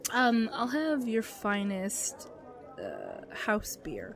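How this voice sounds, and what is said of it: Character voice. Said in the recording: “let me just say the character voice.”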